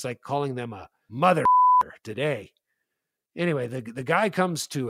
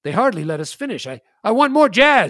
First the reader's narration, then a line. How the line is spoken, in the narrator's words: shouted Mustache Bill